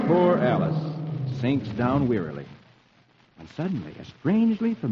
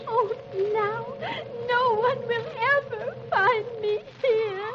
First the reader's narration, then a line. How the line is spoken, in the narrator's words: And Alice cries